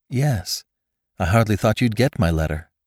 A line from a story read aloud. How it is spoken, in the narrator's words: replied Rebecca